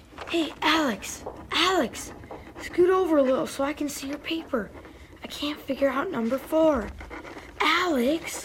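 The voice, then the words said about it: Whispering. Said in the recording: “I'm not talking. I'm whispering.”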